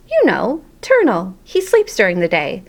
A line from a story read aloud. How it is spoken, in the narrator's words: said Heidi